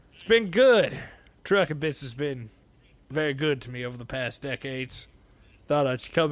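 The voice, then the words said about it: Kurt Russell impression. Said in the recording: “Is this your Kurt Russell impression?”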